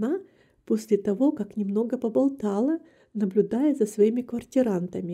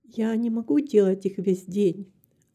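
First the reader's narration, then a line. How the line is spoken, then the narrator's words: Plain. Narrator (Russian): ответила миссис Карпентер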